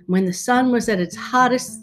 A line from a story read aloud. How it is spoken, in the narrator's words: the dragon gasped